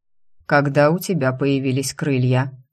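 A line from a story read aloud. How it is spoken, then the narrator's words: Dry question. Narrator (Russian): сухо спросил он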